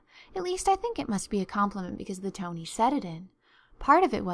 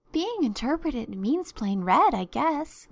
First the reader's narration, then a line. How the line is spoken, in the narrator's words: laughed Anne